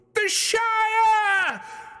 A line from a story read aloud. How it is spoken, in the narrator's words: he cried